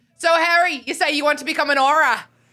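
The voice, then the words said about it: Heavy put-on Australian accent. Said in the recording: “go into a pretty heavy Australian accent.”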